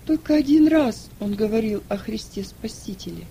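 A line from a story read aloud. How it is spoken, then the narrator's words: Timid, fearful answer. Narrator (Russian): Она чувствовала опасность … она робко ответила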